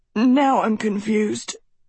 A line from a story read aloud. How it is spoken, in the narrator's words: Tedros wheezed